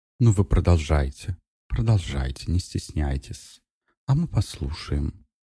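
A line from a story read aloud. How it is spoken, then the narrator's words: Soft, insinuating, chilling. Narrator (Russian): мягко проговорила Елена таким вкрадчивым голосом, от которого у меня по телу пробежали мурашки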